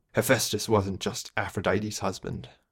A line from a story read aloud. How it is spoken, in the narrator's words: Colin mumbled